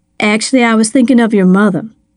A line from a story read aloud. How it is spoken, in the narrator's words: she said